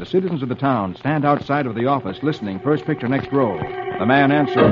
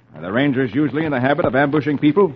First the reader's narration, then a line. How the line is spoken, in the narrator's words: Hoppy replies sharply